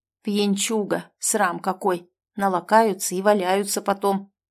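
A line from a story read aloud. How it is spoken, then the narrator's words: Angry old woman's mutter. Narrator (Russian): буркнула сердитая старушка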